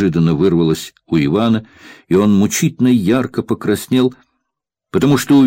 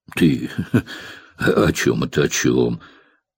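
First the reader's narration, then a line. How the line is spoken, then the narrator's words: Muttering. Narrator (Russian): пробормотал Захар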